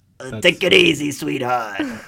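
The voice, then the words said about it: Impression of Colin Farrell's Penguin. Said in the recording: “my spot-on impression of Colin Farrell's Penguin”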